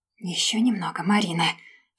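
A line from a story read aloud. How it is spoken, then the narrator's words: Restrained whisper to herself. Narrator (Russian): шептала про себя, чтобы не убить его здесь и сейчас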